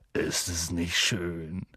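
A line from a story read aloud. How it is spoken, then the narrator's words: Murmured. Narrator (German): murmelte Hagrid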